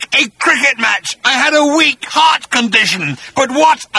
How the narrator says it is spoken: roared Agrajack

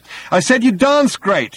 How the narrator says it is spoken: he shouted

